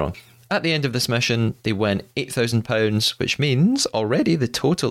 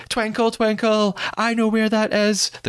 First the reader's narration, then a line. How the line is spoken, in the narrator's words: someone just screams